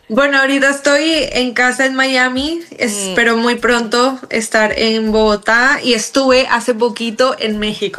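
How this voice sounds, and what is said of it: Colombian Spanish accent. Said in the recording (Spanish): “ese acento colombiano”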